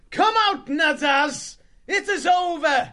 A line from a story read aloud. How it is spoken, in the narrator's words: he cried